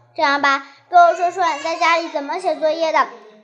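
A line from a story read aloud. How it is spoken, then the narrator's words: Smiling. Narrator (Chinese): 唐小乐笑着说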